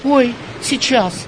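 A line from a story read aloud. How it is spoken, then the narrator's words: Frightened. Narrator (Russian): испуганно отозвалась Манька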